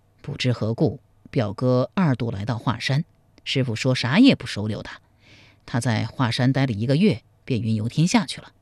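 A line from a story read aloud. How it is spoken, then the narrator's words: Long sigh. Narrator (Chinese): 长叹一声说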